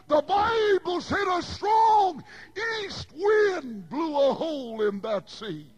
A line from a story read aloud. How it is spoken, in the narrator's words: I shouted